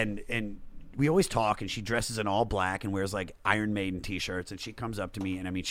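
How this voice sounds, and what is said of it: Usual voice. Nothing is said of it.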